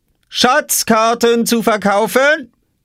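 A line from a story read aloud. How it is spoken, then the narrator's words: Called out. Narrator (German): rief Oskar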